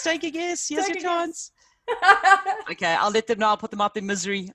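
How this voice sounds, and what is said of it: South African accent. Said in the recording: “Where is that accent? ... I'm a South African.”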